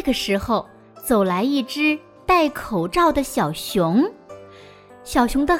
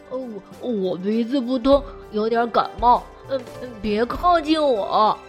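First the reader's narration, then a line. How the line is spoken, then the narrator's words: Muffled, odd voice. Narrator (Chinese): 小熊的声音透过口罩有点古怪，他说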